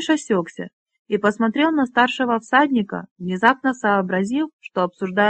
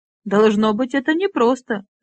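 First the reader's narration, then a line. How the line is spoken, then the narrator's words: Laughing. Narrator (Russian): рассмеялся Гнариш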